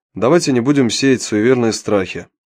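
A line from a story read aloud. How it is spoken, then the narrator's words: Calm objection. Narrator (Russian): спокойно возразил Павел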